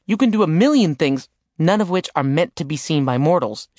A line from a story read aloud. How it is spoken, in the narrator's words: she said bitterly